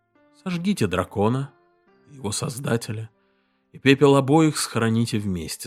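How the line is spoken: Plain. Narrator (Russian): сказал император

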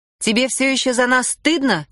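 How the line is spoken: Shouted. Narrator (Russian): крикнула Лори

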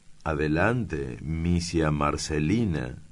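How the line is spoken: Plain. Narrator (Spanish): dijo Daniel

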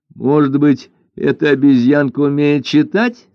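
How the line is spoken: Laughing remark. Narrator (Russian): смеясь заметила Лань-Инь

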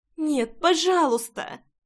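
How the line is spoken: Pleading. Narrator (Russian): взмолилась Рейна

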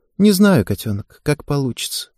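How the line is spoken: Sad sighing reply. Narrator (Russian): грустно вздохнув, ответила Ева

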